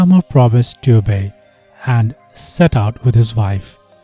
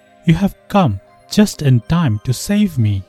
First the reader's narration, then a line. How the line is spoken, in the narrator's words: cried his cousin